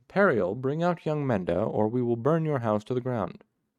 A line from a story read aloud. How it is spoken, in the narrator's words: the smith cried out again